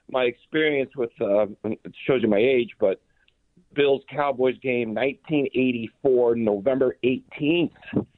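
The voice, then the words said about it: Rough, unwell-sounding voice. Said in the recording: “excuse my voice. I had a cold.”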